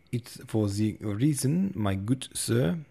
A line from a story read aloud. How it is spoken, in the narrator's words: said, speaking with a German accent